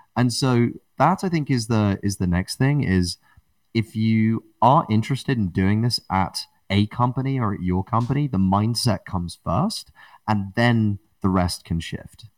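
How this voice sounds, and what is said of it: British accent. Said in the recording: “how alluring my British accent was”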